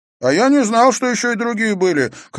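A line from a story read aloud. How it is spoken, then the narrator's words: Shouted. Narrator (Russian): крикнул Иверсон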